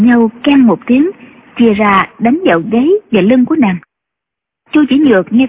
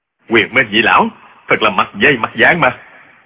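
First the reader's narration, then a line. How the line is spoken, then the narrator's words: Startled shout. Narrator (Vietnamese): Trương Du Kỵ cá kinh, quát lên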